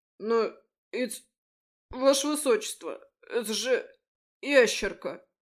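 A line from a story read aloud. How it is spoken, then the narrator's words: Stammering guard. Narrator (Russian): Запинаясь, выдал стражник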